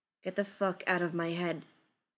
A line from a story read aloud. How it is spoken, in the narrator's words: Wei says, his voice low and flat